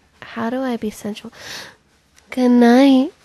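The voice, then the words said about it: Sensual, breathy close-mic voice. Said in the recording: “in a very sexy voice, very close to the mic ... like a more sensual, loud.”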